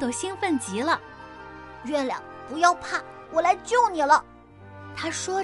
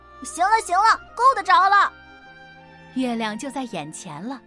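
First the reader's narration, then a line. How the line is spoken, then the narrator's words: Shouting. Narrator (Chinese): 豆豆 他大叫道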